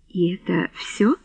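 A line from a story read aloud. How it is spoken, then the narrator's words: Gentle question. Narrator (Russian): мягко спросил герцог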